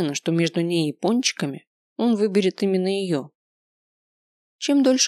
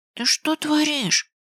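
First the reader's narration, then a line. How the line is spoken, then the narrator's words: Hiss, male. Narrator (Russian): зашипел он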